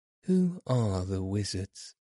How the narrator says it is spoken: asked Dorothy

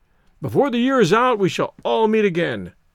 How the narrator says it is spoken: cried Stoddard, hopefully

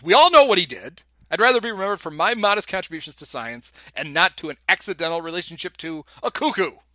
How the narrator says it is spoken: Frederick finally gets mad and he yells

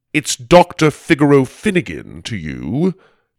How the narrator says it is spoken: he said sternly

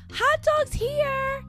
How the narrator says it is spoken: I yell

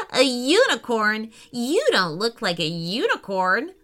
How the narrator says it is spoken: Roxy giggled out loud

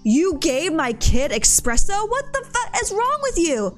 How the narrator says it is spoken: entitled mother explodes angrily

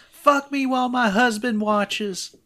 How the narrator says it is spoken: She screams

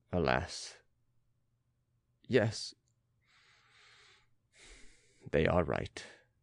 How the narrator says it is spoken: replied the lifeguard's lieutenant in his bland, affectionate voice

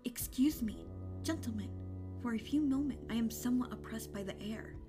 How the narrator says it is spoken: He faltered

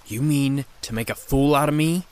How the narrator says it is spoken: hissing

